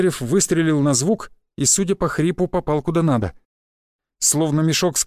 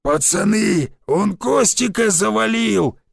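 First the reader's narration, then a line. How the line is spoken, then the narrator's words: Hoarse bark. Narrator (Russian): рявкнул хриплый голос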